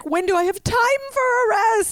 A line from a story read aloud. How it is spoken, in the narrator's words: yelled